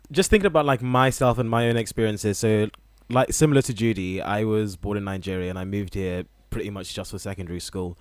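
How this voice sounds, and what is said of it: Generic English accent. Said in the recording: “my accent has always just been very, very generic England Shire”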